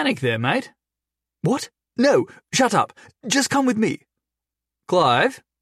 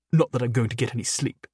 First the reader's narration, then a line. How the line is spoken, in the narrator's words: Clive muttered angrily